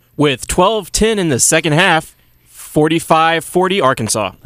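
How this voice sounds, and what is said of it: Big sports announcer voice. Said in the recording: “big announcer voice”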